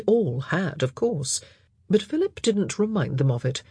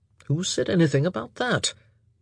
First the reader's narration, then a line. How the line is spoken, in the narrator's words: Anthony mumbled